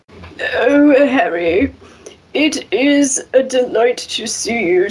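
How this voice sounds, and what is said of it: Professor McGonagall character voice. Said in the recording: “reading Harry Potter with accents ... I did come up with accents for everyone. Probably my favorite is Professor McGonagall”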